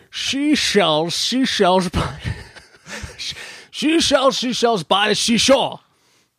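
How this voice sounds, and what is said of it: Imitates another person's voice. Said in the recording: “do a Sean Connery impersonation ... this is Sean Connery doing a classic tongue twister”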